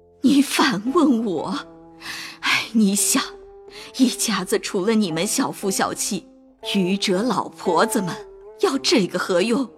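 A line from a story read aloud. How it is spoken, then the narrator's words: Crying and sighing. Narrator (Chinese): 王夫人又哭又叹，说道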